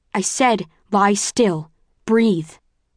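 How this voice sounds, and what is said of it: Louder, sterner commanding voice. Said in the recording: “say it louder, sterner”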